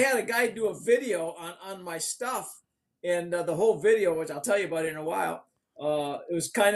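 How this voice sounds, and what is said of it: Usual voice. Nothing is said of it.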